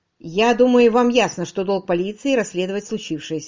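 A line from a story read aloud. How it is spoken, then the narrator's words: Plain. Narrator (Russian): сказал Родрик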